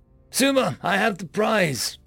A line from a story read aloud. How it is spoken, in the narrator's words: Jake called out to me